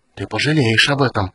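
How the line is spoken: Breathed out. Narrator (Russian): выдохнул Рейстлин

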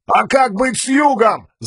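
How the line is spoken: Yelling reply. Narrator (Russian): заорал в ответ командир отряда

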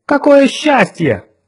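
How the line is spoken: Exclaimed. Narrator (Russian): воскликнула Джон Рэндалл

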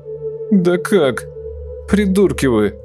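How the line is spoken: Wheezy whine. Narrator (Russian): просипел Нурик ныча

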